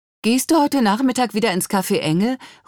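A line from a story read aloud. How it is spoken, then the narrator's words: Call across. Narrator (German): ruft Annelie herüber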